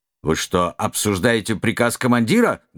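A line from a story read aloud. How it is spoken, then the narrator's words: Rude, cutting off. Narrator (Russian): грубо обрезал лейтенант Безгин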